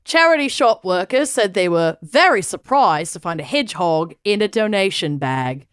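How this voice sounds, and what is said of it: Put-on British accent. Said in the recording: “I will be putting on my British accent.”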